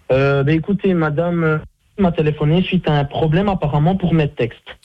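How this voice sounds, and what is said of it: Belgian French accent. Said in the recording (French): “Vous n'êtes pas obligé de faire l'accent, hein ? ... L'accent, ben c'est mon accent belge.”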